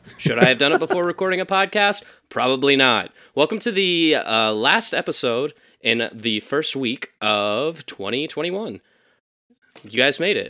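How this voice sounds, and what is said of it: Rough, strained voice. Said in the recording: “I was scream singing Santa Fe from the hit musical Newsies just a little bit ago in my car, so my voice is rough.”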